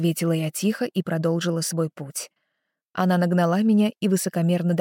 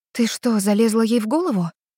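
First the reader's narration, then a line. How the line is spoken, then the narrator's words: Frightened question. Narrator (Russian): испуганно спросила я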